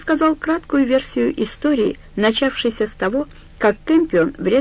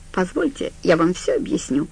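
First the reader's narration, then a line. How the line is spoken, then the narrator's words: Calm. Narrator (Russian): сказал Стью спокойно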